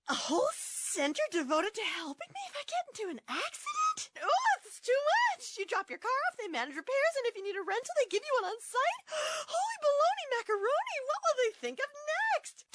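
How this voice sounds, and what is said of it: Overwhelmed, panicky character voice. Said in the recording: “my impression of an easily overwhelmed person”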